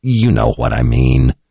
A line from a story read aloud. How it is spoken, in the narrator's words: Kara grumbled